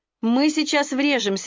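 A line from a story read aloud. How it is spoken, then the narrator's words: Shrieking. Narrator (Russian): визжала Шерил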